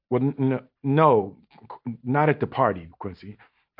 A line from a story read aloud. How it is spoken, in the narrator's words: I stutter